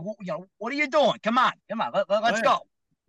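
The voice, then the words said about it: Brooklyn accent, mock-angry. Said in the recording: “my Brooklyn accent starts to come out a little bit”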